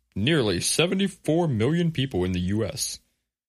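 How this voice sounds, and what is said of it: Radio announcer voice. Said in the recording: “a good radio announcer voice. My Ted Williams.”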